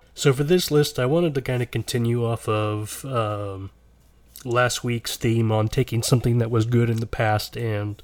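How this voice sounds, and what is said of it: Voice sounds unwell. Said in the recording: “if you couldn't tell by my voice, I'm not feeling great right now”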